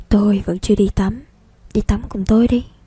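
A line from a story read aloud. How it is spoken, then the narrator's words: Quiet voice, close to ear. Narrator (Vietnamese): Trạch Vũ ghé vào tai cậu nhỏ giọng nói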